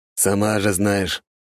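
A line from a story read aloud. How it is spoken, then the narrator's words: Grumbling. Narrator (Russian): проворчал ее коллега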